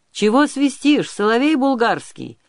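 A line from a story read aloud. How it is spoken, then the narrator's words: Loud yelling. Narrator (Russian): орал он на всю реку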